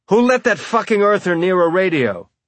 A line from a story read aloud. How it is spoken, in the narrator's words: someone shouted